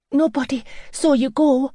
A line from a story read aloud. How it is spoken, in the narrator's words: she gasped as she came running up